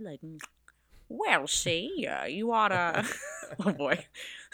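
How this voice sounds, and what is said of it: Imitates another person's voice, phlegmy drawl. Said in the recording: “does a better Jimmy Stewart impression ... get some phlegm going ... he does really talk out of the side of his mouth”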